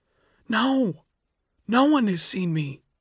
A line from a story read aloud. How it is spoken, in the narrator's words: she cried